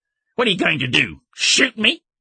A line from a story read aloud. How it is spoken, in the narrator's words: Bledsoe snorted